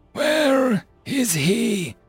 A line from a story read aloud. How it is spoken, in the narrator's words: Jason wheezed